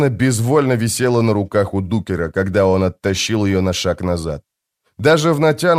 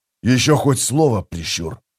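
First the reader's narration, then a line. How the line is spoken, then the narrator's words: Whisper. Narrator (Russian): прошептал Блистик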